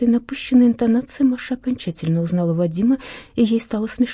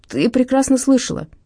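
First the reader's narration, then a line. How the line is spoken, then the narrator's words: Irritated reply. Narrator (Russian): раздраженно откликнулся он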